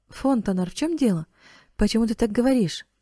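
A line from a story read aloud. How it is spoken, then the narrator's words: Frightened exclamation. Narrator (Russian): воскликнула Клементина с некоторым испугом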